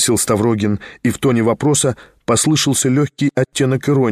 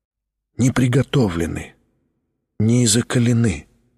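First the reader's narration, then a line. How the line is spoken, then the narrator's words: Timid whisper. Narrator (Russian): робко прошептал Тихон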